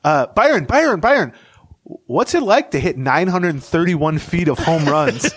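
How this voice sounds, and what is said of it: Imitating a sports beat writer. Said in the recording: “in his best beat writer impression.”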